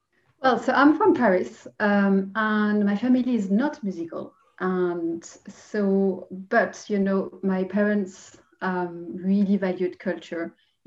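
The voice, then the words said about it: French accent. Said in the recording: “Judging by your accent, ... you're from France.”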